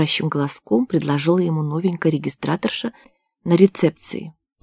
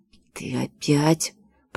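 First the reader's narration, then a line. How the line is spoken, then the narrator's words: Hiss into ear. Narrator (Russian): прошипел он ей в ухо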